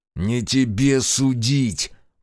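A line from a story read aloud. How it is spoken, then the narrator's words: Growled. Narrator (Russian): прорычал Решетов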